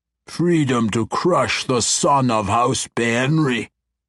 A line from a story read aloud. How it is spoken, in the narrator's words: Ertu growled